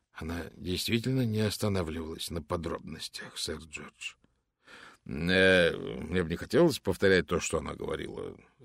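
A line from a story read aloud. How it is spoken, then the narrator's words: Embarrassed mutter. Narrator (Russian): смущенно пробормотал сэр Джордж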